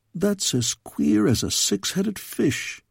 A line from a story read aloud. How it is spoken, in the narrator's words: muttered Rumstandel